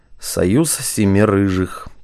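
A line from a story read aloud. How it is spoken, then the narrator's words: Guilty mutter. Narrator (Russian): пробормотал генерал, скорчив виноватую мину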